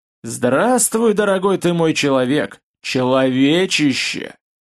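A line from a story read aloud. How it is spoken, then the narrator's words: Pleased husky male voice. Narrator (Russian): довольный, с приятной хрипотцой мужской голос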